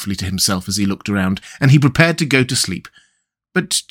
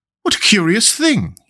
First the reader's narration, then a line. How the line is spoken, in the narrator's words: he cried